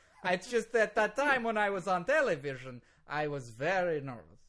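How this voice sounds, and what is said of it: Heavy Russian accent. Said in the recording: “You are so Russian right now ... you're way more Russian now ... now you sound super Russian”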